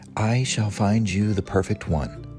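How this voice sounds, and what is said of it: Quiet library voice. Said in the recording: “Mouse said quietly in his library voice”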